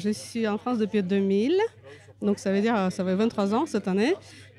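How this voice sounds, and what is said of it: Slight Russian accent in French. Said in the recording (French): “j'entends un petit accent ... je suis française d'origine russe”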